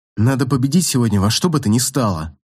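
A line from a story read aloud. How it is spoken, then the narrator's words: Plain. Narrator (Russian): сказал я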